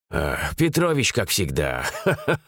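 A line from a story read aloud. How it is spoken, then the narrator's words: Laughing. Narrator (Russian): засмеялся Роман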